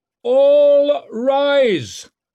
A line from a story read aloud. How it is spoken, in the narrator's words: bellowed the announcer